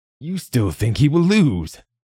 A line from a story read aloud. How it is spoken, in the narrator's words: The Duke exclaimed